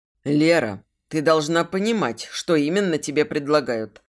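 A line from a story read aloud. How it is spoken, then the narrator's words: Plain. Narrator (Russian): сказал Марк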